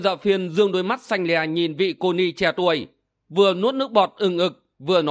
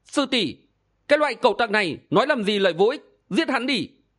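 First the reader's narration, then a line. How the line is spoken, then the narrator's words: Young nun, trembling with anger. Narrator (Vietnamese): Tĩnh Thủy Sư Thái còn ít tuổi, hoảng hốt, tức giận phát run nói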